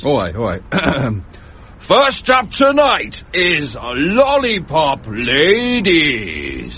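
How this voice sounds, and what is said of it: X Factor announcer voice. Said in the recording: “the X Factor voice ... do the voice”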